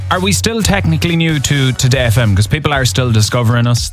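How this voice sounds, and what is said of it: Irish accent, North Leitrim-Donegal-Midlands hybrid. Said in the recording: “accusing you of copying Garen Noon's accent ... it is a hybrid of an accent he has, courtesy of being from North Leitrim, being very close to Donegal, some Fermanagh influences there, and now being relocated to the Midlands”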